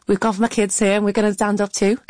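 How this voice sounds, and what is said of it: Very good Liverpool accent. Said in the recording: “that was a very good Liverpool accent”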